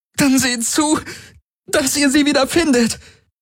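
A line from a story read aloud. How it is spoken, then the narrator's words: Calling out in pain. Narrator (German): rief Ylana unter Schmerzen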